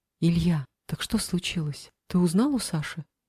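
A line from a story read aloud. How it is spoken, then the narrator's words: Quiet question. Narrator (Russian): тихо спросила Алиса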